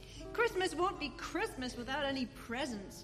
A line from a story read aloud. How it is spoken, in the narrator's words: grumbled, lying on the rug